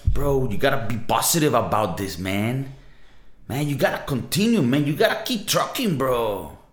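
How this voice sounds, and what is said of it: Californian surfer-bro accent. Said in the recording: “some dude, you know, like maybe from California telling you this”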